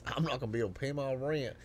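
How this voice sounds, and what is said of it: Put-on American Southern accent. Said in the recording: “in a southern accent, this European says...”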